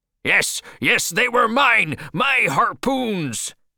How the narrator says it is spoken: shouted Ahab

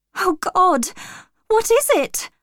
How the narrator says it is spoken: cried

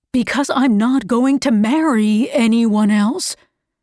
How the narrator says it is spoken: Archer cried

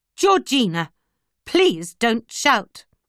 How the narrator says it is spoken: Trainer cried

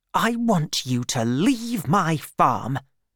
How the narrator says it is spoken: said Bathsheba angrily

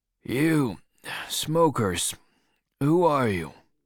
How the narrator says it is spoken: He asked sleepily

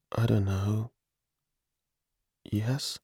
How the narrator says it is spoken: My voice was very quiet

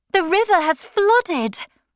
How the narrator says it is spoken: Maggie cried out to no one

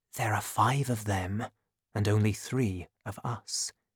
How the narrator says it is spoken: whispered Athos to his two friends

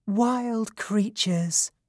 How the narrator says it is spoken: she said in a sweet and gentle voice

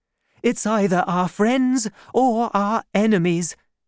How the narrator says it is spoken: she cried to Madame Bonacieux

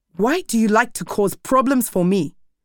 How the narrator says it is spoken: shouted

